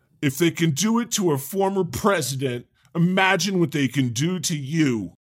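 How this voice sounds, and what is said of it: Mock House Judiciary GOP voice. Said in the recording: “that accent that you just did ... my House Judiciary GOP voice”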